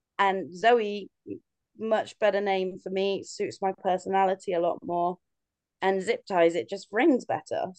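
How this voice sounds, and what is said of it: British accent. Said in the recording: “"Oh my God, you're British!" ... I open my mouth and I either really disappoint, or they then love the accent”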